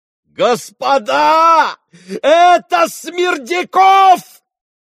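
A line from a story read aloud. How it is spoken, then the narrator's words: Sudden full-force shout. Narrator (Russian): Закричал он вдруг изо всей силы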